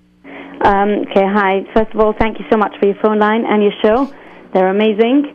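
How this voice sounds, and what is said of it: British accent. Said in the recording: “your British accent. You're in America calling in with a British accent”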